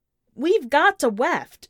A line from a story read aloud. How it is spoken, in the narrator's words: Barry shouts, the noise of the battle already riotous